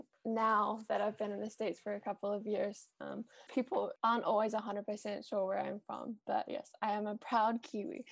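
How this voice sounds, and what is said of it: New Zealand accent. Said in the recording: “I am originally from New Zealand, if you can't tell by my weird accent.”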